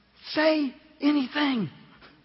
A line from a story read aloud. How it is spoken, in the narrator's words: the teacher whispered to him